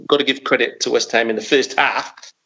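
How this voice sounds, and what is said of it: Put-on Australian accent. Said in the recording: “That's rubbish Australian accent. ... No, it was excellent.”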